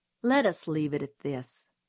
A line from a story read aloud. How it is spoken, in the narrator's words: said Atticus dryly